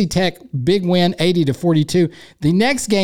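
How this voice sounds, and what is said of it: Usual voice. Nothing is said of it.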